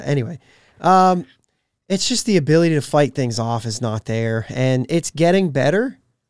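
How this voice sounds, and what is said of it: Hoarse, partly lost voice. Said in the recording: “it's not sounding like me again. Just continue to lose my voice, continue to get sick... more of like an allergy thing”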